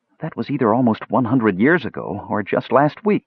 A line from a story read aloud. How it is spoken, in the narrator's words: she said merrily